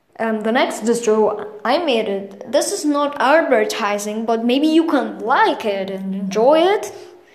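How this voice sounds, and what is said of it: Mild put-on British accent. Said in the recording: “I will change my accent to British a little bit, so, because it sounds funnier”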